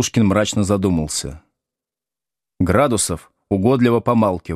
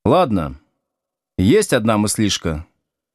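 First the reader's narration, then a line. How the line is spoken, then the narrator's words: Plain. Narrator (Russian): наконец сказал Слушкин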